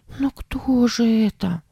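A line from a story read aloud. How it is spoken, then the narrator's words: Frightened question. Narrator (Russian): спросила Сара испуганно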